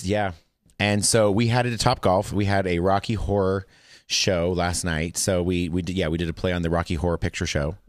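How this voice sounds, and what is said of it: Voice lower than usual. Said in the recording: “voice is a little lower than normal, because I'm usually a lot more high pitched.”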